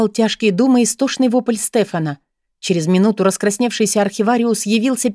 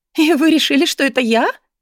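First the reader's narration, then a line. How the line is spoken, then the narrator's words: Laughing. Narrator (Russian): Расхохоталась девушка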